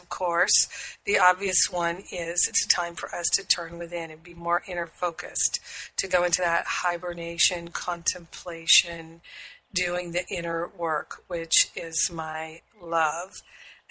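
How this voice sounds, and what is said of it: Husky, slightly crusty voice. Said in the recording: “I still got a little bit of crustiness ... I have a husky voice for you.”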